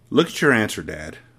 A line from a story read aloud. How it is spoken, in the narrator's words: Matilda said gently